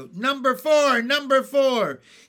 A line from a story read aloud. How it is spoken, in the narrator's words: The people began to shout